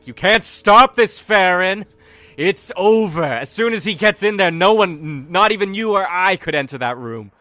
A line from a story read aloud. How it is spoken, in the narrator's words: Tori just yells out at Farron